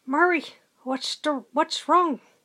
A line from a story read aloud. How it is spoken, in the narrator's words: Carter hiss